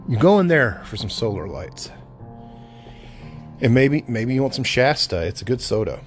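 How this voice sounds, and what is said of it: Hoarse, slightly rough voice. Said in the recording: “I'm a little hoarse, actually.”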